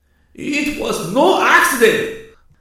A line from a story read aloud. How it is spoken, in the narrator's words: the Connie screamed